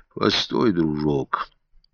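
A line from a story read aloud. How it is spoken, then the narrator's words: Quiet. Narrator (Russian): сказал он тихо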